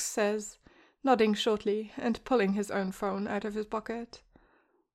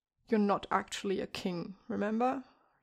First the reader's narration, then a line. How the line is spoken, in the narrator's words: Ren grumbles